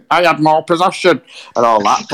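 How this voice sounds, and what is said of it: Put-on zippy accent. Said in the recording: “in a zippy accent”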